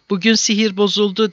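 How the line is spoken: Crying out. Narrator (Turkish): diye haykırmış, henüz müşrik olan kardeşi Safvan

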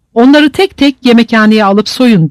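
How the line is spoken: Captain shouting order. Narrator (Turkish): diye bağırdı yüzbaşı

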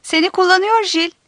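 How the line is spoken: Shouting. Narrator (Turkish): diye bağırdı Darian

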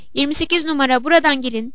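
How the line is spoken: Shouting. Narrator (Turkish): diye bağırıyordu

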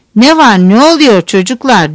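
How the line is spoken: Loud booming voice. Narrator (Turkish): Gür bir sesle

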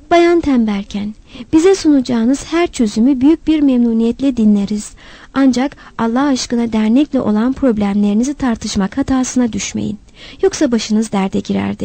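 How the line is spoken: Plain. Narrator (Turkish): dedi

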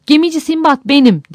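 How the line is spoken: Shouting. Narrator (Turkish): diye haykırdım

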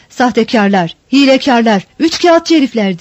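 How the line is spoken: Shouted angrily. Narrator (Turkish): diye öfkeyle bağırdığı

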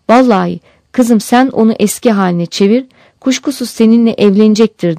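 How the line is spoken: Crying out. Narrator (Turkish): diye haykırmış

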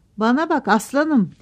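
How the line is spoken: Director shouting. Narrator (Turkish): diye bağırdı müdür

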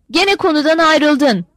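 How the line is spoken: Shouted. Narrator (Turkish): diye bağırdı

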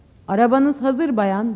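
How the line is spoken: Plain. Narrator (Turkish): dedi

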